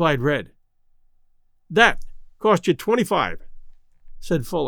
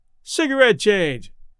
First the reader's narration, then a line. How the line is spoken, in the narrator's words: yelled Red